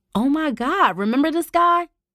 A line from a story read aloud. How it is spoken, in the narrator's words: Rochelle blurted